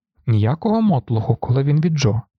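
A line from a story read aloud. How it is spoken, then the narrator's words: Stern declaration. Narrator (Ukrainian): суворо заявив Грегор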